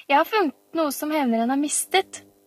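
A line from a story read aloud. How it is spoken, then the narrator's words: Shouted. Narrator (Norwegian): ropte Camilla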